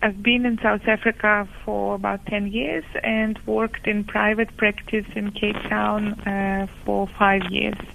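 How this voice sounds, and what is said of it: Ukrainian accent. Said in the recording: “I come from Ukraine, as some of you might be curious about my accent.”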